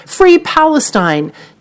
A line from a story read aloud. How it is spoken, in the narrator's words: one audience member shouted